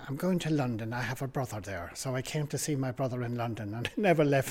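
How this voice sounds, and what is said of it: Irish accent. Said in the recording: “I was born in Cavantown in Ireland ... because I came as an adult, my accent has never changed”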